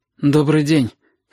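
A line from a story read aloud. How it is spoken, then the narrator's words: Hoarse. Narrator (Russian): хрипло сказала Сашка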